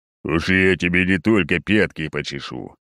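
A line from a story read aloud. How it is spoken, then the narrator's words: Muffled bass from sack. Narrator (Russian): глухо басит поганец из мешка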